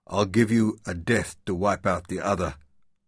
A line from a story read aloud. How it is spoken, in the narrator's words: Lothar promised grimly